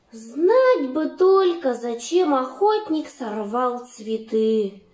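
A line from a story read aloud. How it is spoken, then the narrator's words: Sighing gingerbread man. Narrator (Russian): вздохнул пряник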